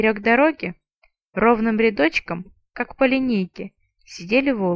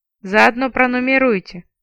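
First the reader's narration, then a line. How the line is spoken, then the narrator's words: Gloomy advice. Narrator (Russian): мрачно посоветовала я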